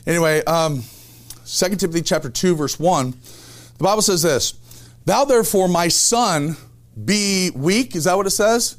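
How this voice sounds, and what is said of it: Strained, hoarse voice. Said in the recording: “I'm already losing my voice here. Somebody have like a cough drop or something?”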